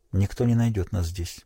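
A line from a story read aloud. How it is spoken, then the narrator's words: Quiet. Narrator (Russian): тихо сказала Селиен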